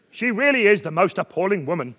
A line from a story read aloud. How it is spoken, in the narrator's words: I exclaimed to my wife, Norman